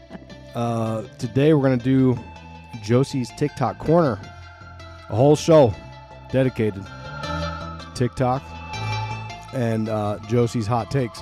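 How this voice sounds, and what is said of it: Voice sounds sick. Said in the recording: “You can hear it in my voice. I'm sick.”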